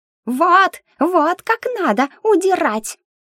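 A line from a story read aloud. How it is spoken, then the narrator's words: Excited squeak. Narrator (Russian): воодушевленно пропищал Мик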